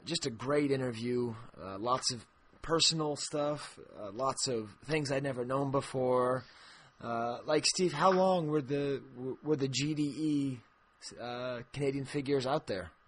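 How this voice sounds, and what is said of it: Somewhat worn-out, hoarse voice. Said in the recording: “my voice is a little bit gone”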